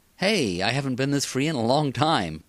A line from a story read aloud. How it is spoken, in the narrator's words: Praxis said happily